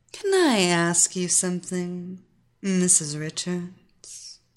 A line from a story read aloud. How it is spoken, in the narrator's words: the predatory young teen asked in a soft, silken voice